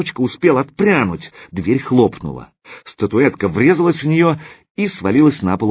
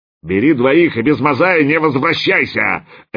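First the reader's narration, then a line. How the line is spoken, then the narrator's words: Barking roar. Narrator (Russian): рявкнул слон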